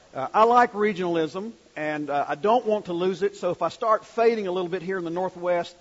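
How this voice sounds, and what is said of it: Southern US North Carolina accent. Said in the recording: “I'm working very hard to keep my North Carolina accent ... I'll try to keep my Southernisms going”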